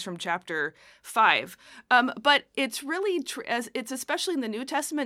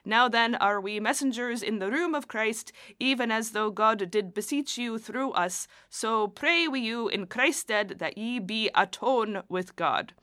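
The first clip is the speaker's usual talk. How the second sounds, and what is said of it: Put-on accent reading scripture. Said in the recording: “apologies for the accent.”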